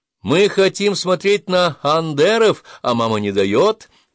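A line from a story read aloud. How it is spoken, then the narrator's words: Upset booming voice. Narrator (Russian): прогудел расстроенный Агасир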